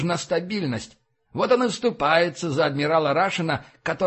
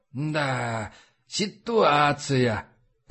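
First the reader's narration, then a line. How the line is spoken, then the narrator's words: Muttered. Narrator (Russian): пробормотал он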